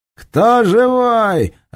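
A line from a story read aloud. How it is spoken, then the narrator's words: Yelled openly. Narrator (Russian): открыто заорал Серега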